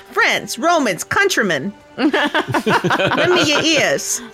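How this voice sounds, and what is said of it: Brooklyn accent. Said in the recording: “Shakespeare in the Brooklyn accent”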